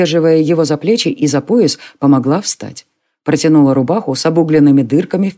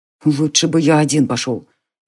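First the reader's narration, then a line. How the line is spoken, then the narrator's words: Displeased mutter. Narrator (Russian): недовольно буркнул Конор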